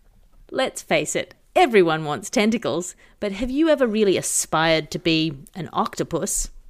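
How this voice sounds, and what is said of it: Slightly more serious ad-reading voice. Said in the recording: “I'll say it in a slightly more serious voice.”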